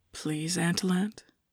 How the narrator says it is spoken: Emin whispered

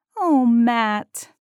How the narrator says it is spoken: Amanda said in a piteous tone

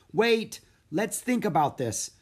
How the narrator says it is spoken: cried Jack

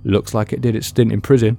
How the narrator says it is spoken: the man said with a chuckle

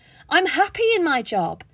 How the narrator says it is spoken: screeched back

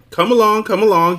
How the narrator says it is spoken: he shouted from the dark hole

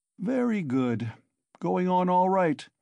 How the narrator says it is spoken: said lazily

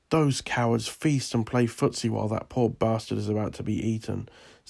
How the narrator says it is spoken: said an Egyptian

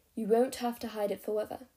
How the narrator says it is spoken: Alden said gently

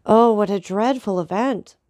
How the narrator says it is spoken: cried Maximilian

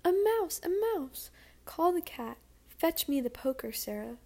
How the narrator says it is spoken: exclaiming

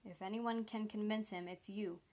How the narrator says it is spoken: Sanders continued calmly

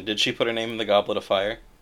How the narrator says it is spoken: He asked calmly

